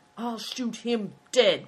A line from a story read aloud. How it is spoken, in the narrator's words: cried Good Fortune